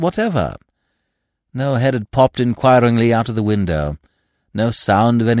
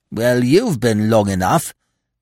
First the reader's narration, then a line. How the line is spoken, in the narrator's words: he growled